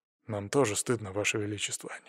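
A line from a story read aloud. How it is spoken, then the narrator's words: Quiet. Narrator (Russian): негромко сказал Державин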